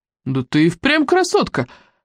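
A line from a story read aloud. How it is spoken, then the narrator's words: Exclaiming. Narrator (Russian): воскликнул Фильдрем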